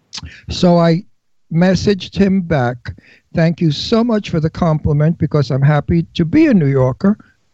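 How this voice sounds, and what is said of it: Brooklyn New York accent. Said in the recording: “totally New York, he wrote, Brooklyn. He loves my Brooklyn accent, and he loves my New York toughness”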